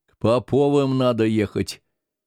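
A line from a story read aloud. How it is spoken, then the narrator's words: Plain. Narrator (Russian): сказал Яким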